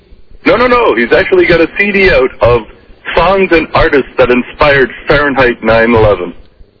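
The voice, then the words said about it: Canadian accent. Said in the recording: “My mistake for going to the Canadian lines. You can, of course, tell by the accent... I love the way you say out.”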